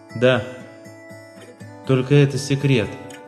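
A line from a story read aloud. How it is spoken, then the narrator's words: Quiet. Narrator (Russian): тихо говорит она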